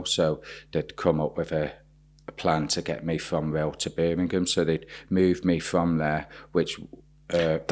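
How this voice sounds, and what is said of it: Slight Birmingham twang. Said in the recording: “that explains the slight twang in your accent. ... It's Birmingham, isn't it? Yeah.”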